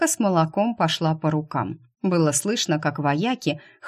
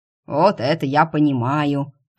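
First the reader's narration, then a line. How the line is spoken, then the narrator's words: Deep bass, grunting. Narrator (Russian): пробасил первый и крякнул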